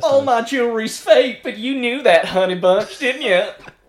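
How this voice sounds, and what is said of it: Put-on Southern American accent. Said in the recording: “She's like Southern, isn't she? ... No, as in, like, Southern. I think you had the accent right first”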